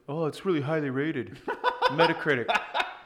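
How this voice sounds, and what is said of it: Imitates another person's voice. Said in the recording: “I like that impression. That's good.”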